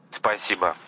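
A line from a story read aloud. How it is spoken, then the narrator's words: Mumble. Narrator (Russian): пробормотал он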